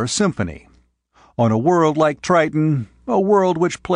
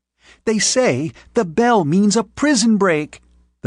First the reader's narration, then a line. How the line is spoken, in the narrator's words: the first violin squealed excitedly